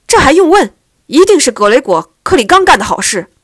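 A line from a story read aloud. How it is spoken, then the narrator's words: Loud. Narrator (Chinese): 马科爵士大声说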